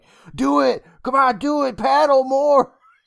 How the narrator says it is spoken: just screaming at him like

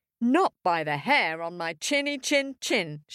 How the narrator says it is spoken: shouted Middle Pig

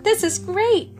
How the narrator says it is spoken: Benny cried

